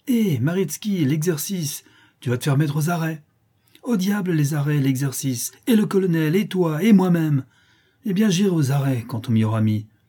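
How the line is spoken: Exasperated exclamation. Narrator (French): s'écria Maritsky, exaspéré

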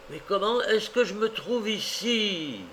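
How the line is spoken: Cry. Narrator (French): s'écria-t-il

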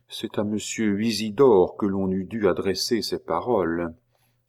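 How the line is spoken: Low sighing voice. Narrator (French): Puis il ajouta tout bas, en soupirant plus fort

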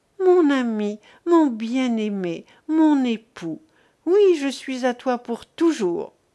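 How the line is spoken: Rapturous exclamation. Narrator (French): s'écria-t-elle avec transport

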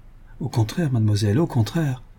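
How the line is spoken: Stammering. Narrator (French): balbutia M

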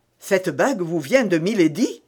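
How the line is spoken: Cry, deeply moved. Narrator (French): s'écria Athos avec une voix dans laquelle il était facile de distinguer une grande émotion

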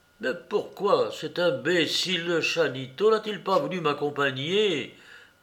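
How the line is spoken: Grumbling bad-temperedly. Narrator (French): grommela-t-il avec mauvaise humeur

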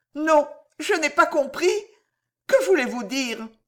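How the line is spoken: Stammering, stunned woman. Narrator (French): balbutia la malheureuse femme complètement atterrée

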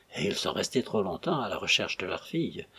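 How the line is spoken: Murmured. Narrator (French): murmura Perrol

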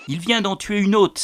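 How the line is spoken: Exclaiming. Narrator (French): s'exclama-t-il

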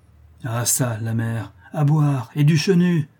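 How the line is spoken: Bandit exclaiming. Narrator (French): s'écria le bandit

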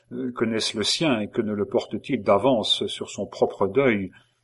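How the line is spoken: Murmuring. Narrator (French): murmura Henri

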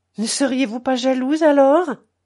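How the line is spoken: Exclaiming. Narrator (French): s'écria l'autre

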